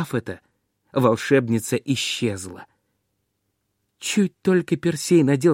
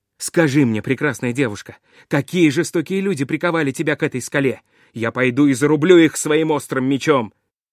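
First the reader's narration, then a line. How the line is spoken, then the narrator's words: Shouting. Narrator (Russian): крикнул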